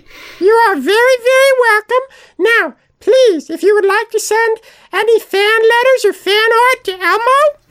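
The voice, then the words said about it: Elmo voice with city accent. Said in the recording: “Elmo has a distinct accent, and the accent is from the city. Just the city. Maybe it's Baltimore. Maybe it's New York. ... Elmo's accent always has to be from the city”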